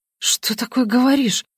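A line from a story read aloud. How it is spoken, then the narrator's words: Frightened whisper. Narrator (Russian): испуганно шепчу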